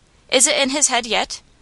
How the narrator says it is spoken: inquired Patsy, anxiously

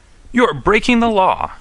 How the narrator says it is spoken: shouted

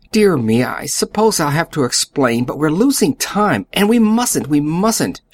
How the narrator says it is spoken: cried feverishly

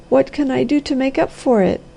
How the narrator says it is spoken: I sobbed

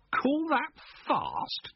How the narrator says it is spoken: Jennings scoffed

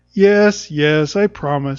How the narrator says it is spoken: said Jude impatiently

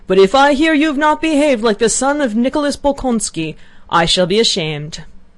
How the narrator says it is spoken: in a querulous voice, suddenly shrieked

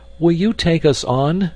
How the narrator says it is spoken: cried Peter, hurrying with his companions as fast as he could

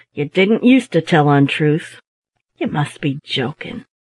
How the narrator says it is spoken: replied gravely

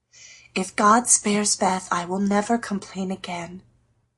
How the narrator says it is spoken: whispered Meg earnestly

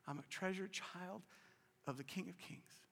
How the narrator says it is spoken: she was so weak, she would just, with her eyes closed, she would just whisper

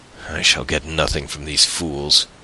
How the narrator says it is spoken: he muttered

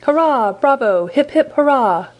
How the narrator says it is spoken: cried Michel

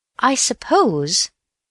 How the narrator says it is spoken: he said slowly

